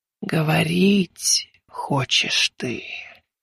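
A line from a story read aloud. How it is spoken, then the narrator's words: Eerie telepathic whisper. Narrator (Russian): Жутковатый шепот, хотя она и не открывала рта, проник в сознание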